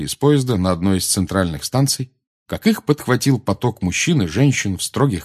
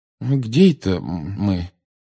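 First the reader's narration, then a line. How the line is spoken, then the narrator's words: Confused question. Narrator (Russian): растерянно спросил мистер Уизли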